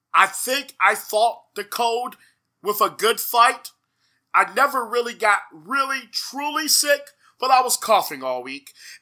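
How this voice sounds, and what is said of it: Hoarse, parched voice. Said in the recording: “the dulcet tones, although under the weather ... I am a little under the weather. My throat's a little hoarse. It's a little parched.”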